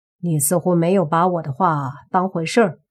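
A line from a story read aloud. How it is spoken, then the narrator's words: Cold, indifferent. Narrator (Chinese): 莫凡冷笑，淡淡的说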